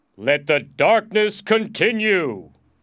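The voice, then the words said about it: Deep voice. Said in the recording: “I said in a deep voice.”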